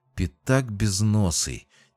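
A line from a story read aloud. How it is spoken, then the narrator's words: Quiet curse. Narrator (Russian): тихо выругался Джейсон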